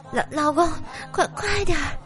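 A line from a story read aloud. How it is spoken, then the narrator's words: Wife panting heavily. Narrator (Chinese): 媳妇儿同样喘着粗音说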